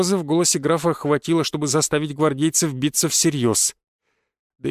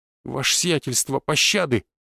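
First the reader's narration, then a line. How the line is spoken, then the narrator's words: Strained, defeated plea. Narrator (Russian): выдавил побежденный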